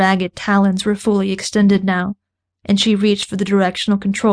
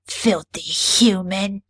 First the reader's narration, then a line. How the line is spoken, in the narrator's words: spat